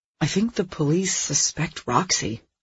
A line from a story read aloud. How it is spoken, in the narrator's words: I murmured low, one neighbor to another